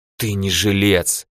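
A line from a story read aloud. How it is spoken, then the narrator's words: Hiss. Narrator (Russian): прошипел он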